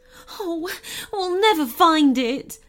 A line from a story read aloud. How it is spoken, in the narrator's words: moaned